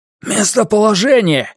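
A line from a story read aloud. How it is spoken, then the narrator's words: Shouted. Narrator (Russian): выкрикнул Конор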